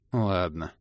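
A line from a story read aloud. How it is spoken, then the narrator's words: Gloomy agreement. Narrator (Russian): мрачно согласился Кандирт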